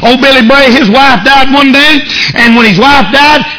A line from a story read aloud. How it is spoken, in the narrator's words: he shouted all over the living room